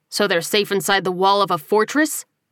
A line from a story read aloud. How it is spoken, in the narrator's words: He scoffed